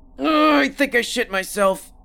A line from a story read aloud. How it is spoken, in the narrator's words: Kenny grunted